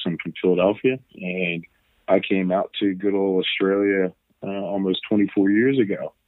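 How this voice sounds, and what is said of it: American accent. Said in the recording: “You can probably tell by my accent that I'm originally from the US.”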